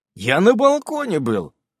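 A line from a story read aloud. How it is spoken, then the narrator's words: Angry reply. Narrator (Russian): отвечаю я сердито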